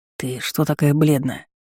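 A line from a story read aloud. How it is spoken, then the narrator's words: Whisper in the ear. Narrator (Russian): зашептал братец мне в ухо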